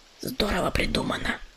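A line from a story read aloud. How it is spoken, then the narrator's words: Thornbush whispering. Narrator (Russian): прошептал терновник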